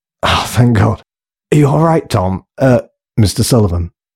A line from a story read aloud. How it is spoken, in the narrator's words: gasped Mandelson